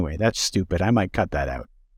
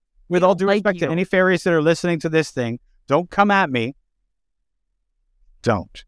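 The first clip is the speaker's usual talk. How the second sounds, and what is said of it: Stern mom voice. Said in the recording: “there's the mom voice... That was total mom voice.”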